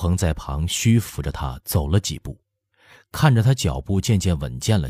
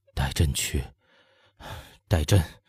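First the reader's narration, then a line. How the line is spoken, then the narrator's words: Chilled, dread-filled murmur. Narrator (Chinese): 乾隆觉得两手食指都森凉了，喃喃地说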